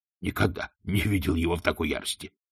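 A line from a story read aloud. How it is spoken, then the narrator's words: Grunting. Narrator (Russian): хмыкнул господ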